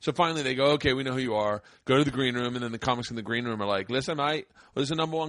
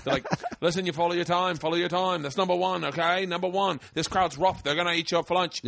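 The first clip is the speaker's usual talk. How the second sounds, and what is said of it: Badly done put-on accent. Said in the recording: “I'm doing a horrible accent, whatever accent I'm doing”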